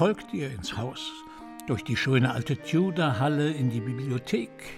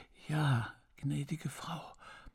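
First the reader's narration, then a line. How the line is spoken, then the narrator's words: Quiet, old woman. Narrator (German): erwiderte die alte Haushälterin leise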